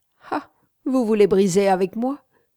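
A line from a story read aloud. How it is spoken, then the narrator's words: Mocking tone. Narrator (French): fit-elle d'un ton railleur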